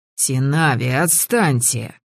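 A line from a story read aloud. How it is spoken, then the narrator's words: Hoarse wheezed reply. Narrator (Russian): просипели мне в ответ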